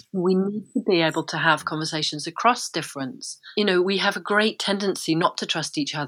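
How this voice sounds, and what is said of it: Middle-class English accent. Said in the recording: “someone who speaks like, you know, with my accent often gets written off as, yeah, middle class”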